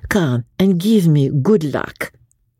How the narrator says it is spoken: said, still in a foreign accent

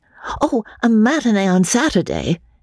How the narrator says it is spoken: began Kim eagerly

